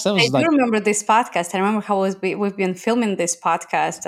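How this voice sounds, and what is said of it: Russian accent. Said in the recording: “this accent saying she's from Russia”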